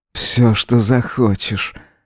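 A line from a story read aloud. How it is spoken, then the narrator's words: Plain. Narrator (Russian): ответил Эзра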